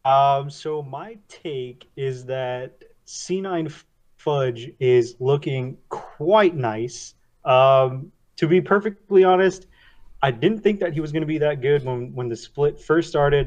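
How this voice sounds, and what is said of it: New York, Queens accent. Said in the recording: “where's your accent from? ... Queens, born and raised.”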